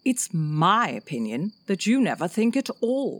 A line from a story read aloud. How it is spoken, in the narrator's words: the rose said in a rather severe tone